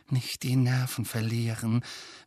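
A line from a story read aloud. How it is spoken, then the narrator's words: Urgent whisper. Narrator (German): wisperte Hermine Harry und Ron eindringlich zu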